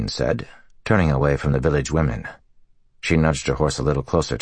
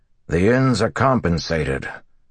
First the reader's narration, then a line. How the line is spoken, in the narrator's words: the mayor said gruffly